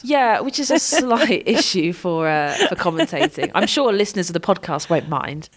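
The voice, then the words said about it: Low, sick voice with sore throat. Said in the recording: “you're not very well ... I don't sound fabulous ... My voice has definitely dropped a little bit. Yeah, I'm a bit sick ... really sore throat ... my voice is a bit low and I feel a bit chesty ... You just sound horrendous.”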